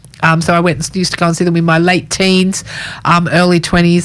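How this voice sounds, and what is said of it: Voice strained from a cold. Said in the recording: “my voice is playing up a bit. I've had a bit of a cold the last couple of days”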